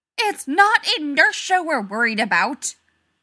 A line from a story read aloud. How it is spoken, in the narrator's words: Rodney shouted